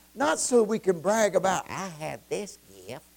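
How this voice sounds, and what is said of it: Put-on Southern accent. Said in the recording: “That is my southern accent.”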